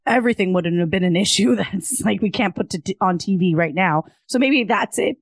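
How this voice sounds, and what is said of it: Hoarse, strained voice. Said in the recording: “I'm losing my voice.”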